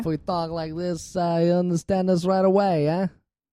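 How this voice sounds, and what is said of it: More nasal put-on voice. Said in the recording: “This is a little bit more nasally than I normally go.”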